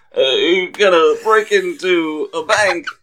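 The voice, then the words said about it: Strained, sad Christopher Walken impression. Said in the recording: “a Christopher Walken impression ... It was like you're lifting something heavy and very sad about it.”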